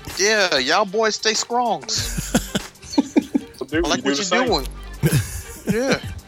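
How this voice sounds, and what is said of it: Poor imitation of another person's voice. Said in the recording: “this impersonation sucks”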